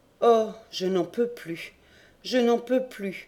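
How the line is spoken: Moaning. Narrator (French): gémissait Courtès

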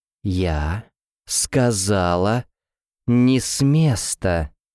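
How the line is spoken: Exclaimed. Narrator (Russian): человек воскликнул

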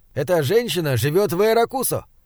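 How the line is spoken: Exclamation from crowd. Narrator (Russian): Один из толпы воскликнул

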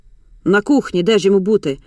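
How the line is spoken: Angry grumble. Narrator (Ukrainian): буркнула розлючена Ада

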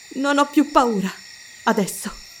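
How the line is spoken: Sighing. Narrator (Italian): sospirò lei

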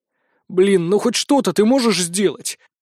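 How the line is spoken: Groaning. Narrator (Russian): простонал я

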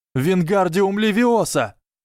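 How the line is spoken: Yell. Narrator (Russian): заорал Гарри

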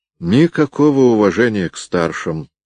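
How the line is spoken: Sighed. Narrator (Russian): вздохнул Станислав

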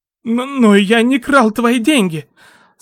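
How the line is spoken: Stammering, fearful man. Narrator (Russian): сказал мужчина, заикаясь и опасаясь за свою жизнь

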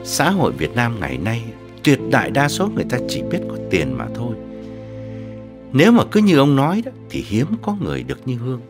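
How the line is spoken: Suppressed sigh. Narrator (Vietnamese): Ông Vương nén tiếng thở dài bảo

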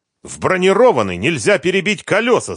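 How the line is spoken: Angry shout. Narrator (Russian): зло прокричал Талгат

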